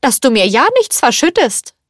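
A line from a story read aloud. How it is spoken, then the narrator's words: Calling out. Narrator (German): rief Madame Potin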